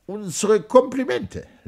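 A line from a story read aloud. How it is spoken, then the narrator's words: Slurred speech. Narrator (German): lallt er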